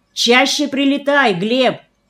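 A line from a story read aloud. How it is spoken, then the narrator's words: Sudden shout. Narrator (Russian): вдруг крикнул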